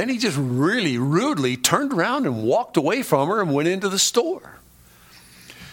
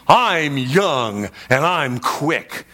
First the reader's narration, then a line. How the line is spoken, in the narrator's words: he angrily asked her